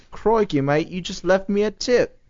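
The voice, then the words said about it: Attempted Australian accent. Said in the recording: “they do it in an Australian accent. I can't do that accent.”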